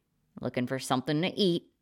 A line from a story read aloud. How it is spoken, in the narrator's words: he grunted